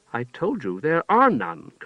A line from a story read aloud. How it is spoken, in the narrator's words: Karth answered sharply